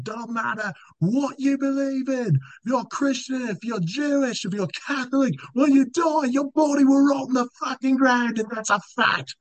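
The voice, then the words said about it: Put-on thick British accent. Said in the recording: “in his thick British accent”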